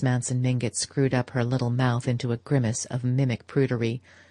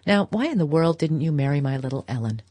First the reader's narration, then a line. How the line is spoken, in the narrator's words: Archer laughed